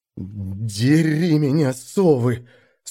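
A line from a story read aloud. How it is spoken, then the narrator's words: Hoarse, teeth chattering. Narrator (Russian): стуча зубами от холода, просипел я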